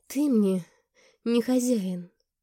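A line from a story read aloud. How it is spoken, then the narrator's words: Weak, helpless. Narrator (Russian): произнесла слабым, беспомощным тоном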